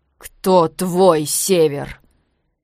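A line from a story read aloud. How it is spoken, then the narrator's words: Wheezing after a blow. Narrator (Russian): Последние слова Тир хрипел, получив удар под дых от претора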